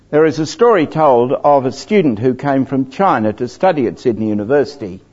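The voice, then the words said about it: Genuine Australian-sounding accent. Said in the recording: “my accent is genuine ... the I sound means A”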